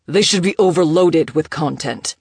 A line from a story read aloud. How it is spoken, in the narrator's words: he snapped